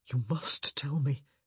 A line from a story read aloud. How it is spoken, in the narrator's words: he said, his voice oddly choked